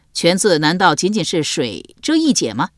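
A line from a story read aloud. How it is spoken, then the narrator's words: Laughing heartily. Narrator (Chinese): 晏几道哈哈大笑道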